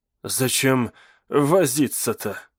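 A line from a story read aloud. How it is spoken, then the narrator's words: Exhaled. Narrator (Russian): выдохнул он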